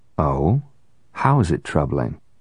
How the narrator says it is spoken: Noah gave his voice just enough edge to caution the attorney

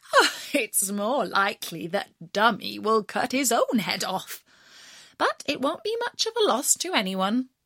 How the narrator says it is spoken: The mother laughed at him and said

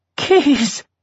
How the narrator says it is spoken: he wheezed

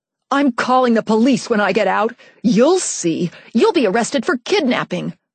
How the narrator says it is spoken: I shouted at my dad

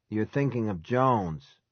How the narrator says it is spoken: he said in a husky voice

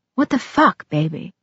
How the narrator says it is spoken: he whispered

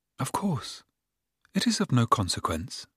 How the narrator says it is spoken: said, in a more friendly tone than she had yet used to him

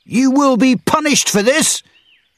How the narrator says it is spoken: the leader shouted

